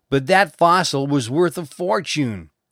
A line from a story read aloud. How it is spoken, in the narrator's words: cried the studio manager